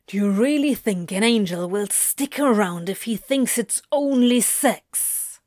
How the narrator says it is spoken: hisses, lips curling in a snarl

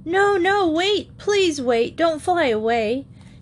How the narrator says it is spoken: she shouted in her sleep

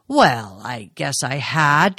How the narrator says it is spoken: Travis said gruffly

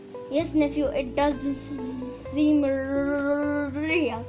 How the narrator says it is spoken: he stammered

